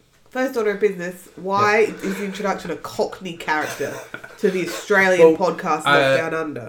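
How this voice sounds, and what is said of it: Congested, stuffy-nosed voice. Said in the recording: “I do have a bit of a blocked and stuffy nose today. It's probably obvious.”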